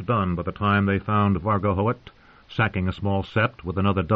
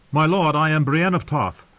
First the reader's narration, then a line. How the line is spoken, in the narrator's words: wench called out